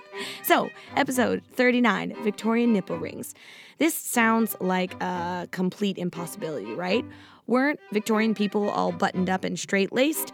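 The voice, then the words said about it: Raspy, slightly sultry voice. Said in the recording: “sorry about my voice. I caught a little bit of a cold this week, so that's why we have raspy, little bit sultry ... voice going on... just with a cold”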